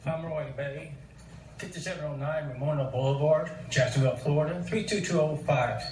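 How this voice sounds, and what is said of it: Strong regional accent. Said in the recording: “Very ... accent.”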